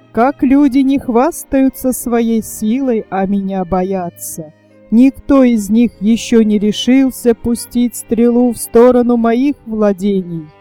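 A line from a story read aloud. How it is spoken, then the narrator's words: Laughing. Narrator (Russian): смеясь, говорил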